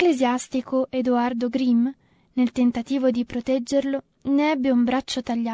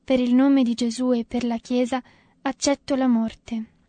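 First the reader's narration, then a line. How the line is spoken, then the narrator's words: Moaning. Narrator (Italian): Tommaso gemendo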